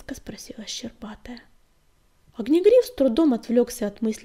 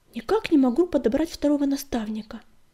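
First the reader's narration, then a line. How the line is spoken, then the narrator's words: Heavy sigh. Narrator (Russian): тяжело вздохнул глашатай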